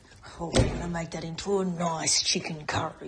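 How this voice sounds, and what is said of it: Broad Australian outback villain voice. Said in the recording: “put on a Wolf Creek voice when you get excited ... I get a bit Marty Monster when I get excited”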